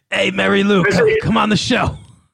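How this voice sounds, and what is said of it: Imitates another person's voice. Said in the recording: “my Danny DeVito impersonation ... Why don't you just do the impersonation”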